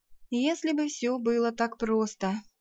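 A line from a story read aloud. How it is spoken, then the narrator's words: Sigh. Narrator (Russian): Я вздохнула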